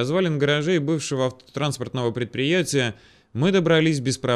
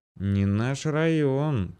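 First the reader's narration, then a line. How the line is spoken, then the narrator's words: Quiet, wary mutter. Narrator (Russian): тихонько пробормотал, явно сообразивший, что дело с душком Грицко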